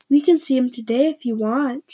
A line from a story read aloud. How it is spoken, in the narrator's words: said kindly